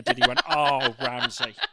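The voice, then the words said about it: Josh Whittaker impression. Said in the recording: “That was a really good Josh Whittaker impression.”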